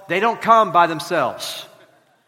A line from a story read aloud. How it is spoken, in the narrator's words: in her Southern drawl